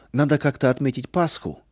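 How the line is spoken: Cheerful. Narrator (Russian): весело сказал Арам

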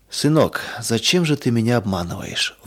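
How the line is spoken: Sad and quiet. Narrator (Russian): вдруг спросил отец грустно и тихо

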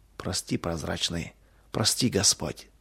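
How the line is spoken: Whispered. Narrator (Russian): Семен прошептал только

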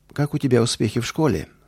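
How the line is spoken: Plain. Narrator (Russian): спросил он

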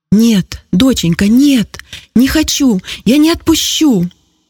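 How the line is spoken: Shouting. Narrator (Russian): закричала Зина

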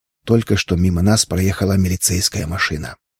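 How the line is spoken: Whispered. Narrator (Russian): прошептав

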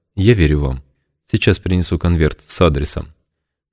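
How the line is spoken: Quiet. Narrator (Russian): тихо сказала

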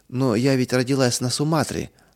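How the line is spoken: Timid objection. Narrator (Russian): набравшись смелости, робко возразила она однажды

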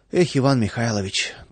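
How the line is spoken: Sighing. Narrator (Russian): только и вздохнул Владыкин

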